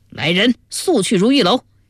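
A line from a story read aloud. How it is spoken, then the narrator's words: Sudden shout. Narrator (Chinese): 忽然大声叫道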